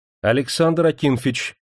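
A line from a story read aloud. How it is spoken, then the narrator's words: Deliberately loud woman. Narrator (Russian): нарочито громко сказала Демидова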